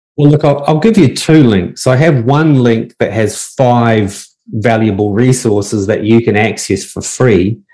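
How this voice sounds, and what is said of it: Speaker's own accent, spoken slowly. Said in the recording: “say it slowly so that my accent doesn't confuse anybody”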